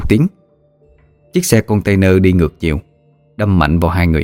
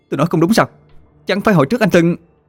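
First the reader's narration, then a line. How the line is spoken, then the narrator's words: Loud scream. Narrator (Vietnamese): Cô ta thét lớn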